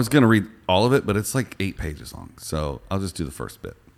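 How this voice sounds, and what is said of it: Usual voice. Nothing is said of it.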